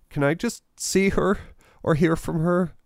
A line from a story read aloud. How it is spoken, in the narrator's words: James pleaded